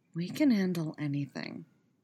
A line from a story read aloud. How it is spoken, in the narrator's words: he whispered